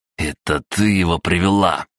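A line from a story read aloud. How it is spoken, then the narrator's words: Angry blurt. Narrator (Russian): злобно слетело с его языка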